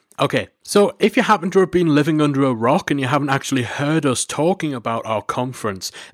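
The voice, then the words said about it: Noticeable regional accent. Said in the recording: “for those of you who can't quite decipher my accent.”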